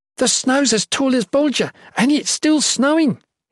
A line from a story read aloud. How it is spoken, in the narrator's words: he exclaimed